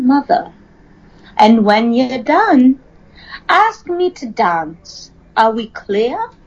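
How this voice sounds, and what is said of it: Attempted transatlantic accent. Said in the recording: “the transatlantic or mid-Atlantic accent ... that was my attempt to write out a sentence using it”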